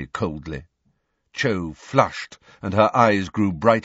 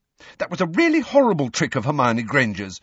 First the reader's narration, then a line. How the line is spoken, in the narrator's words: said Cho fiercely